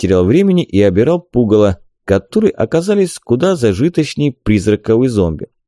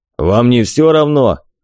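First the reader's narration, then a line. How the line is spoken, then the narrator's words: Approving grunt, dwarf. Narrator (Russian): гном одобрительно хмыкнул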